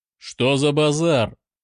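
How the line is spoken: Commanding bark. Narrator (Russian): рявкнул он голосом, привыкшим командовать

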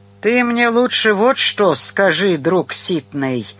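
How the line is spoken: Tender drunken drawl. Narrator (Russian): умильно протянул он с характерной для пьяных людей быстрой сменой настроения

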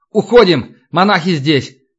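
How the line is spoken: Shouted. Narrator (Russian): крикнул Альбинос

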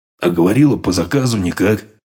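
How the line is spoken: Grumbling. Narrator (Russian): проворчал

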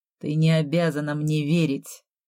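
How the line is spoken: Even voice. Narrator (Russian): ровным голосом сказал я

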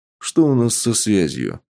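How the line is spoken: Calm. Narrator (Russian): спокойно ответил Сергей

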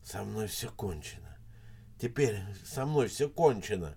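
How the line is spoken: Whispered. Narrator (Russian): шептал Никитин

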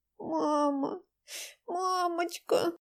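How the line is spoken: Childlike whimper. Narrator (Russian): По-детски захныкала Дайнека

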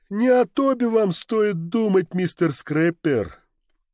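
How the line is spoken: Tired. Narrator (Russian): устало проговорил Гэбриэл

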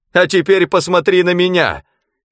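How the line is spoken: Shout. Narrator (Russian): крикнул он

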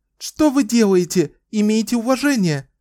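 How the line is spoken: Shout. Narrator (Russian): закричала она

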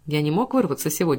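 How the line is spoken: Plain. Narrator (Russian): сказал он

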